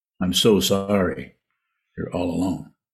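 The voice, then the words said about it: Sarcastic mock-sympathetic tone. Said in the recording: “I'm being sarcastic,”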